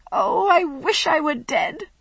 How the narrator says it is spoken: she moaned

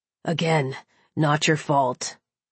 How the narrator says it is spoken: he growled, heated lust flashing in his eyes

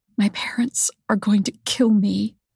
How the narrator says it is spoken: Rebecca whispers

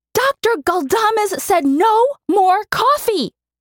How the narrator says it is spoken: she screeched

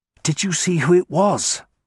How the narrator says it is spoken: I asked Harsnett urgently

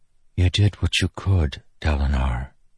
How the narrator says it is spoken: she whispered after a time watching

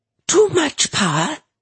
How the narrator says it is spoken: A derisive shriek

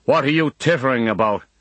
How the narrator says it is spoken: he barks

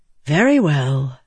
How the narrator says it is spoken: Yasna said with a sigh

